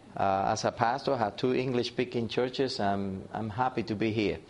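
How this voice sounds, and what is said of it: Slight Cuban Spanish accent. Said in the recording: “a little bit of accents, it's because I'm Cuban, coming from the islands of Cuba”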